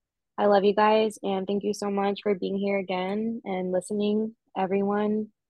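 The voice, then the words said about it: Emotional, choked-up voice. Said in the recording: “I got emotional”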